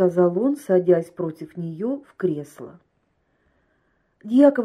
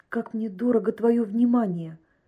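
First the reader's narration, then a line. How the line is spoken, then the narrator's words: Tender, loving. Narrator (Russian): Ласково, с любовью, сказала Елена Семеновна своему гостю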